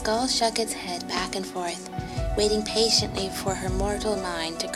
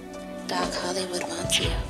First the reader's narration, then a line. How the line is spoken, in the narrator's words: its skull ... whispered, soft and leathery